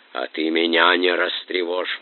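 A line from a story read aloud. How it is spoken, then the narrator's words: Hoarse rasp. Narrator (Russian): прохрипел Дмитро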